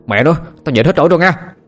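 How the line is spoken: Irritated shout. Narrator (Vietnamese): Thằng Sinh bực mình quát lên

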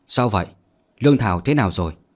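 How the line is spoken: Soft chuckling question. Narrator (Vietnamese): Phương Tử Vũ khẽ cười, thay đổi chủ đề rồi hỏi

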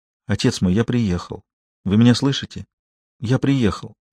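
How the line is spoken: Whisper. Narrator (Russian): Николя прошептал

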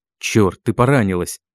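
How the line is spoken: Growled. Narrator (Russian): прорычал мой хищник

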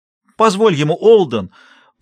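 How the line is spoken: Shout. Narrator (Russian): прокричала Шелли

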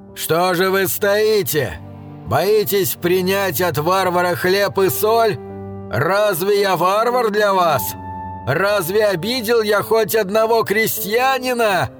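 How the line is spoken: Shouted. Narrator (Russian): кричал варвар

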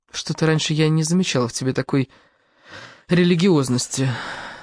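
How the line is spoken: Weary. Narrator (Russian): сказала она устало

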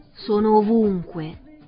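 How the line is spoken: Plain. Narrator (Italian): rispose la voce

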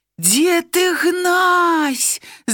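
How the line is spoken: Shouted. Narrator (Belarusian): закрычаў ён

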